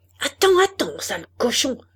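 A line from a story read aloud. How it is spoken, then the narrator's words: Shouting. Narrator (French): cria-t-elle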